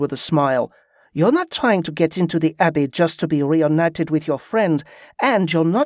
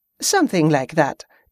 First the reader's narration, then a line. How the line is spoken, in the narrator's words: Yvette said with a laugh